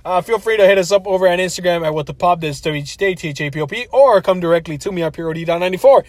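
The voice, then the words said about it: Very fast speech. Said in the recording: “I said that really fast,”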